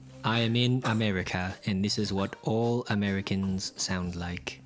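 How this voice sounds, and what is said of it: Put-on British accent. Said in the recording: “That's definitely British... You're definitely British.”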